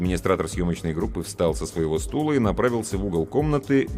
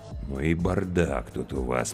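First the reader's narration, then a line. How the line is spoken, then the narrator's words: Drawling. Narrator (Russian): протянул продюсер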